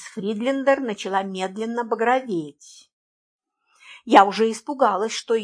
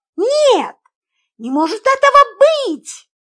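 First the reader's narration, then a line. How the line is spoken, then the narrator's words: Half-choked squeak. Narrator (Russian): пискнула полузадушенным голосом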